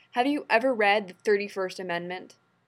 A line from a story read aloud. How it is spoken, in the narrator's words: John growled